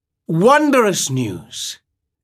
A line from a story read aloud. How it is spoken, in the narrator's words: exclaimed Viego